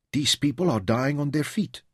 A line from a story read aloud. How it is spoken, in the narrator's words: Louisa said softly